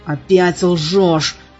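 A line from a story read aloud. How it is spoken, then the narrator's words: Angry growl. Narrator (Russian): зарычал я, сжимая кулаки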